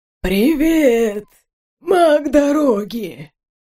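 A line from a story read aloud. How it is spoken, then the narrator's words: Wheezing, spoken while inhaling. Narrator (Russian): Прохрипел Уйма, говоря на вдохе, как обычно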